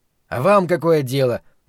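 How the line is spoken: Rude reply. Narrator (Russian): грубо ответил Гарольд

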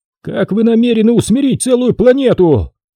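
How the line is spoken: Shouting after someone. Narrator (Russian): крикнул ему в спину Экхард

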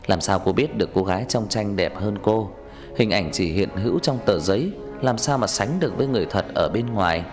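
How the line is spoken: Smiling. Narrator (Vietnamese): Anh mỉm cười

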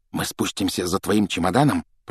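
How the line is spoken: Whisper. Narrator (Russian): прошептал Джордж

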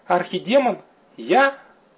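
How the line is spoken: Astonished squeak. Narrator (Russian): пискнула наконец пораженная суккуба

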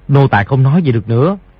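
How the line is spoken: Lowered voice. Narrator (Vietnamese): hạ giọng nói

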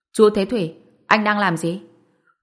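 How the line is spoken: Cold laugh. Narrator (Vietnamese): Ngụy Lương Hồng cười lạnh lùng nói

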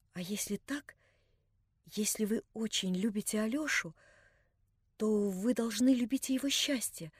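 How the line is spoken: Timid whisper. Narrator (Russian): прибавила она робко и шёпотом

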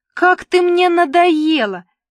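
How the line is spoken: Yelling. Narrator (Russian): заорала Мила

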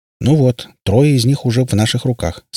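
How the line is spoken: Plain. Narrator (Russian): сказал ему Перри

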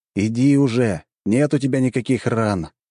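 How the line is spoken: Sigh. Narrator (Russian): вздохнул

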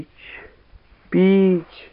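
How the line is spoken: Groaning. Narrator (Russian): стонали ребята

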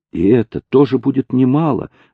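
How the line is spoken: Smiling exclamation. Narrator (Russian): воскликнула Луиза, улыбаясь

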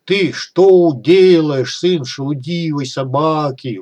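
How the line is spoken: Howling. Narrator (Russian): взвыл Кутруб

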